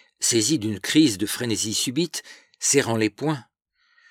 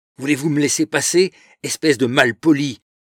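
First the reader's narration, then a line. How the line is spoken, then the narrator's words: Furious shout. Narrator (French): cria Louise, verte de colère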